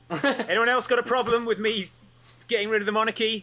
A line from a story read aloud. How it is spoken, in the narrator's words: I shout